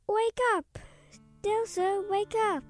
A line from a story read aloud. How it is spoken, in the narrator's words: he whined